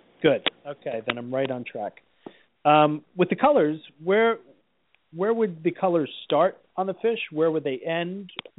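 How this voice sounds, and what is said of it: New Jersey accent. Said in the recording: “it's a New Jersey accent”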